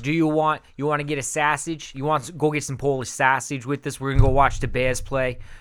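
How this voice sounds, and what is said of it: Put-on Chicago accent. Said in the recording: “it's hard to go in my mind from a New York to a Chicago accent.”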